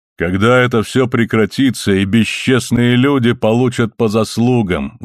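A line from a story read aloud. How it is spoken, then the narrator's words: Exclaiming. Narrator (Russian): воскликнул брат Филипп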